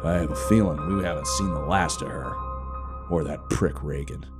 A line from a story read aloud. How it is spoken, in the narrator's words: he scoffed